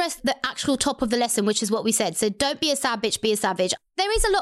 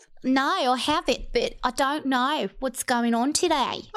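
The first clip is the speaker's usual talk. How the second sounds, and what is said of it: Poor put-on Australian accent. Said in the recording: “my Australian personality coming out. Oh, that was a terrible accent. ... decent.”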